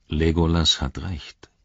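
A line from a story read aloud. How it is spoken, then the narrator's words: Calm. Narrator (German): sagte Aragorn ruhig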